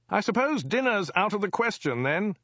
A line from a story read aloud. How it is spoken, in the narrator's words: he yelled